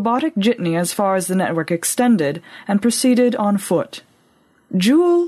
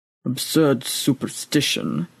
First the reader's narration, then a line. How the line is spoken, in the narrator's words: muttered the old priest into his breather